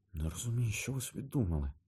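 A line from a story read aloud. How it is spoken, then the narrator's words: Muttering under breath. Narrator (Ukrainian): бурмотіла собі під ніс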